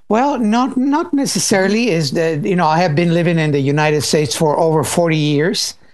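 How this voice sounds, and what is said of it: Slight foreign accent. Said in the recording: “I'm detecting a bit of an accent there.”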